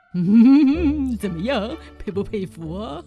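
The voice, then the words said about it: Smug, quiet whispering voice. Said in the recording (Chinese): “如此得意洋洋、小声说着的”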